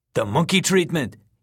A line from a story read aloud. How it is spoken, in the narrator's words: he repeated eagerly